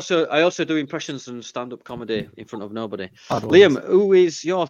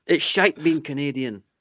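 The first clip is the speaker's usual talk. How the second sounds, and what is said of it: Put-on Scottish accent. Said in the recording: “I don't know why I said it in a Scottish accent”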